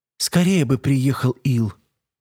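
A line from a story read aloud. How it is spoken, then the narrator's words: Heavy sigh. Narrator (Russian): Мелоди тяжело вздохнула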